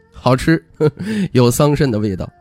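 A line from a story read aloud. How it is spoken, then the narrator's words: Playful laughing. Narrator (Chinese): 徐凤年嬉笑道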